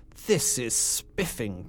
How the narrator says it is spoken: Ginger gasped

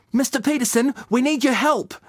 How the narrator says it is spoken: I shouted

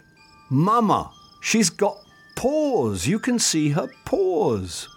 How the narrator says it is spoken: Moomin Troll shouted

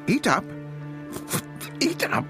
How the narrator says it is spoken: spat Wilfred with his beak full

